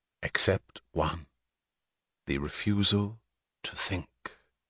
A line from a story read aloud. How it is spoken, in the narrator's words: Francisco said softly